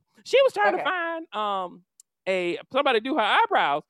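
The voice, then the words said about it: Imitates another person's voice. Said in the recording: “this is my best Heather impersonation.”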